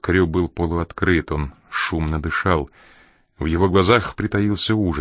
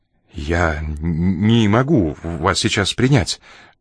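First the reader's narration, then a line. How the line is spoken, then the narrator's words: Trembling voice. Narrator (Russian): дрожащим голосом проговорил он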